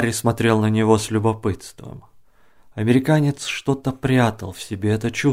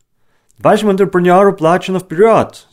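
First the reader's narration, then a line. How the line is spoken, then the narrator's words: Shouting. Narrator (Russian): закричал американец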